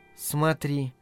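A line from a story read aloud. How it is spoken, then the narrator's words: Whispered. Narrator (Russian): шепотом произнесла она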